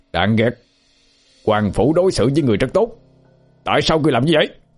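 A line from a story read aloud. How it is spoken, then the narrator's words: Indignant shout. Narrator (Vietnamese): một người căm phẫn hét to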